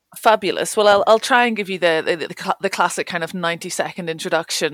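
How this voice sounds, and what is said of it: Northern Irish accent. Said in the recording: “you might be able to tell from my accent, I'm not local to the north of Scotland. I grew up in Northern Ireland”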